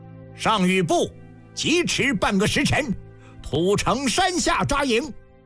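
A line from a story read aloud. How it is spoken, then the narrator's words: Loud command. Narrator (Chinese): 白起高声下令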